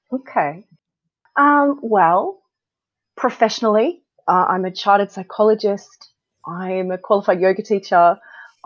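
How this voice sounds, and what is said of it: Non-British foreign accent. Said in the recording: “people hear from your lovely accent that you're not born here”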